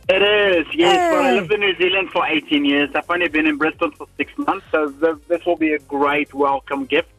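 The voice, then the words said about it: Slight South African accent. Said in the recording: “I sense a bit of a South African accent”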